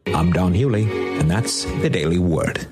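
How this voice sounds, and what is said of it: Polished radio announcer voice. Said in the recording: “He's got a great radio voice.”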